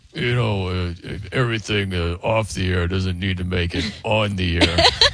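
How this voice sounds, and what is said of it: Imitates another person's voice. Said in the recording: “my Coop impression. You want to do your Coop impression”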